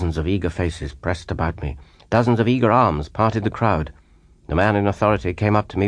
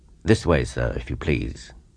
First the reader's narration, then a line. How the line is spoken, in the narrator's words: he said quietly